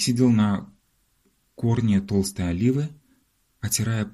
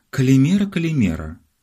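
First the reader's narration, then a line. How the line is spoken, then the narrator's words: Joyful, out of breath. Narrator (Russian): радостно приветствовал отдуваясь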